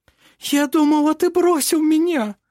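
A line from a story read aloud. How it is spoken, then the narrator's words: Sobbing. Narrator (Russian): всхлипывала она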